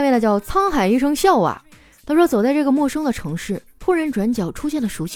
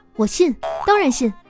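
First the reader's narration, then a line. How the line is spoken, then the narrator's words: With a slight smile. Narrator (Chinese): 聂小倩笑了笑说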